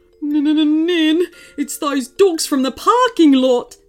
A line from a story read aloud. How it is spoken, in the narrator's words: yelped the man